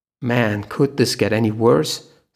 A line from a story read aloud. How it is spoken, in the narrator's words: Sina groaned